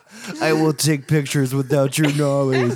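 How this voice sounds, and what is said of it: Creepy close-mic voice. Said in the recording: “the creepiest voice ever ... talk like a fucking creeper”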